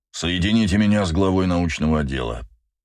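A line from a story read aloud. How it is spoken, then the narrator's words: Dry command. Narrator (Russian): сухо приказал адмирал Прайс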